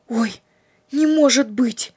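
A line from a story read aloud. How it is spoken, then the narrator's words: Frightened exclamation. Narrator (Russian): Испуганно воскликнула Надежда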